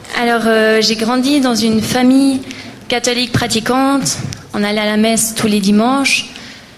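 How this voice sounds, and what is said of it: Slight Valais Swiss French accent. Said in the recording (French): “Si vous entendez un léger accent, c'est normal. Je suis balaisane.”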